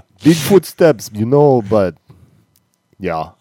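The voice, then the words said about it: Imitates another person's voice. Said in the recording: “I'm glad you can do that voice. ... It's a little bit of work. It's hard to keep going.”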